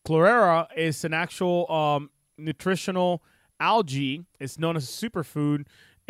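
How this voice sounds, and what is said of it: Speaks with a noticeable accent. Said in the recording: “I say it funny because of my accent”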